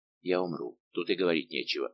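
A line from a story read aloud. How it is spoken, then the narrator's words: Muttering. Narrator (Russian): бормотал комендант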